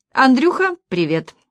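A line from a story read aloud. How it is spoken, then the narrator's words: Cheerful, into phone. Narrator (Russian): весело бросила в трубку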